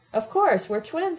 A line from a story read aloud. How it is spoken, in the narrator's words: I exclaimed